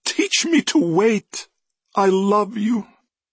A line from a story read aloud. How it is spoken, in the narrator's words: sobbing